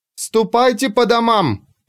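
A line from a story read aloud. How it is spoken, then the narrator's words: Shouted. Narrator (Russian): прокричала Ульрика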